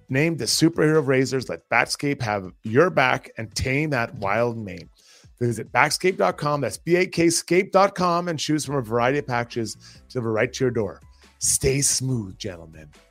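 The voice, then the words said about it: Sexy, seductive voice. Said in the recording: “I said that in that sexy, sexy voice”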